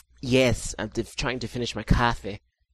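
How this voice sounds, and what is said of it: Fake Boston accent. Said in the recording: “My stupid-ass, fake-ass Boston accent ... That was a very, very, very nice Boston accent.”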